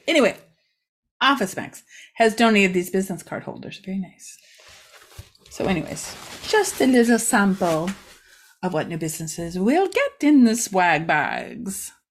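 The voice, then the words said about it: Put-on accent, not done well. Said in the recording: “I don't know why I'm talking like that. I'm really not good at accents. I shouldn't even try.”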